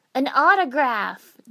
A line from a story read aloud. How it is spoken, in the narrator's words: Naruto exclaimed